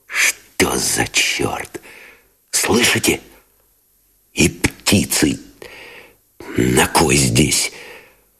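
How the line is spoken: Whispered curse. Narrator (Russian): шепотом выругался Новиков

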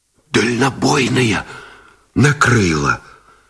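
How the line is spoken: Strained whisper. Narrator (Russian): Шепотом выдавил связист Гусев

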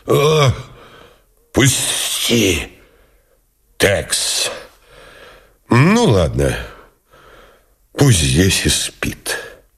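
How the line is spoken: Hoarse wheeze. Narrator (Russian): прохрипел

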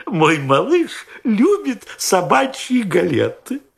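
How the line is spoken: Laughing old woman. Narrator (Russian): Смеясь, ответила старушка

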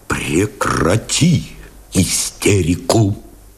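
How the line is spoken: Quiet command. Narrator (Russian): тихо приказал Новиков

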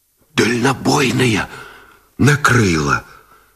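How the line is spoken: Strained pale whisper. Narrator (Russian): Шепотом выдавил связист Гусев бледнее

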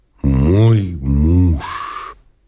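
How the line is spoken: Sighing. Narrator (Russian): сказала она, вздохнувши

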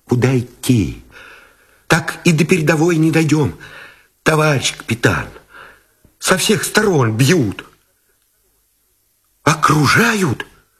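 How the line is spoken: Frightened breathless mumbling. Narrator (Russian): Тот, испуганно, сдерживая дыхание, забормотал

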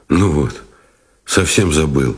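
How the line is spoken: Muttering. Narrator (Russian): пробормотал он

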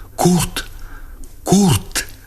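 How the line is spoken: Breathless whispered cry. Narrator (Russian): она вскрикнула задохнувшимся шепотом

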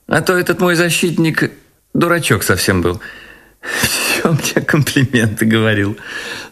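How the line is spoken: Said, then laughed. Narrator (Russian): сказала она и засмеялась

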